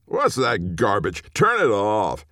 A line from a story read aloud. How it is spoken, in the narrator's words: her dad he was drunk and yelled at her